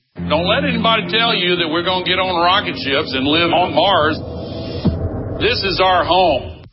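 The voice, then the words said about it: Down-home Tennessee accent. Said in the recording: “down-home Tennessee accent”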